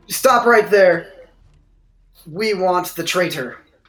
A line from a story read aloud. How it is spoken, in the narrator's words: the red creature shouts at you guys and says